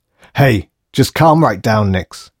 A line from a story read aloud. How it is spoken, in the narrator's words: yelled Davison